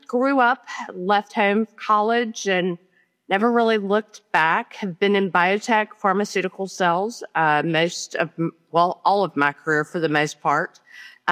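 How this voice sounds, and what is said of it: Tennessee Southern accent. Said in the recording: “I am a farm girl from Tennessee originally. No, the dialect did not leave, but you'll hear it come out quite often.”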